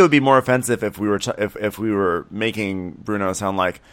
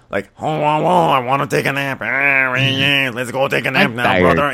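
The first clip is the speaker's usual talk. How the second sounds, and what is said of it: Stereotypical Mexican accent. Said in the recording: “stereotypical Mexican accent”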